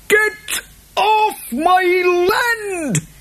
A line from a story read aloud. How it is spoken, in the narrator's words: he shrieked